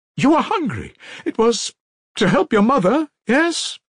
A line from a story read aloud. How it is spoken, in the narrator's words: suddenly she cried